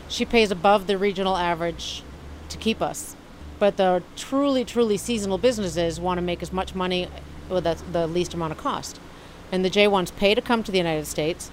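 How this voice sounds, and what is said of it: Fading Massachusetts accent. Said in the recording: “grew up in Massachusetts ... I'm losing my accent. It was even stronger.”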